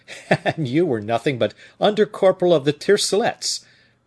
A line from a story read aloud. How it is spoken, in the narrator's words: replied D'Artagnan, laughing